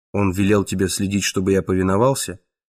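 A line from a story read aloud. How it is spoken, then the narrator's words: Cold inquiry. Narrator (Russian): холодно осведомился Язон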